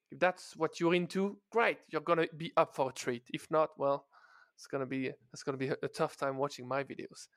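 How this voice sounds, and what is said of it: French accent. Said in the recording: “loads of French accent”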